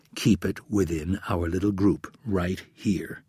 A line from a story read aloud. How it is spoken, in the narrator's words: Rapp lowered his voice